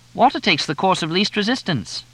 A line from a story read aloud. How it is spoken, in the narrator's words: Sheila piped up from the back